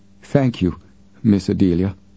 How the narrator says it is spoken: Robinson said in a shaky voice

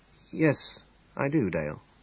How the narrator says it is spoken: he said quietly

